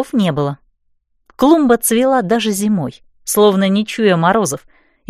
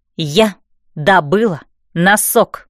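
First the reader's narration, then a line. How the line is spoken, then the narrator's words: Crisp, clipped. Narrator (Russian): отчеканила я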